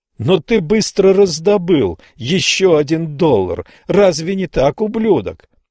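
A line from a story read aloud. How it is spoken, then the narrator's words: Shouted accusation. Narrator (Russian): выкрикнул Абель Хайнс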